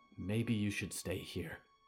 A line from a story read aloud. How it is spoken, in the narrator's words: whispered